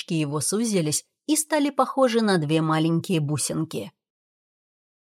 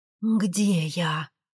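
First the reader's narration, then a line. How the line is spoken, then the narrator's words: Hoarse croaking voice. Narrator (Russian): голос прохрипел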